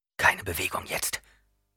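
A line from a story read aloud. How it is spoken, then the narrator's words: Near whisper. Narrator (German): sagte Paul mit einer Stimme, die kaum mehr als ein Flüstern war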